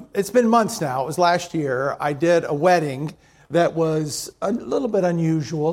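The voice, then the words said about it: Voice not yet fully recovered. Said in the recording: “my voice is still not what it should be, but it's better ... I still can't sing yet, but I can at least talk”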